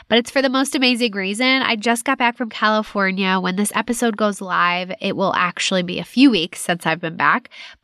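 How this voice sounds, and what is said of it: Slightly congested voice from cold. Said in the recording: “I have a little bit of a cold,”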